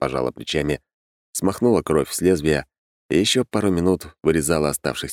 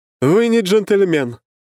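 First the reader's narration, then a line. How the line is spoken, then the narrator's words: Shouted. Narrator (Russian): крикнула она тому, кто стоял на улице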